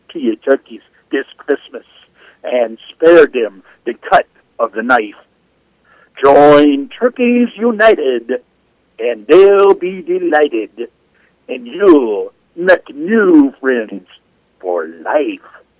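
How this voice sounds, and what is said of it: Put-on Jamaican accent. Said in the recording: “I love that Jamaican accent. That's awesome. ... will you use that accent the entire next week?”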